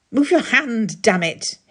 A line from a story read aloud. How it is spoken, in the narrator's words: he snapped